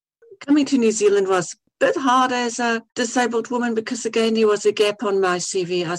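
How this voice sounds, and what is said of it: Mixed Afrikaans and New Zealand accent. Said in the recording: “my accent is really a mixture of Afrikaans and Kiwi and New Zealand and whatever”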